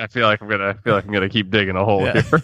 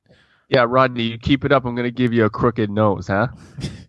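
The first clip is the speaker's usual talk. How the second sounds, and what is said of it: Put-on mobster-style accent. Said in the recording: “the Italian mobster version of Teddy again ... That was not Italian. That was very clearly that was my German accent.”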